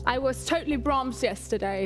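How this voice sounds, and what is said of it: Put-on Cockney London accent. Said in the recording (German): “Cockney-Dialekt. London. ... It's so very like this.”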